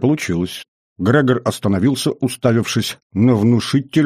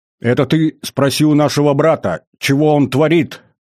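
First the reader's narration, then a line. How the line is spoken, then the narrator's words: Growled. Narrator (Russian): прорычал Григор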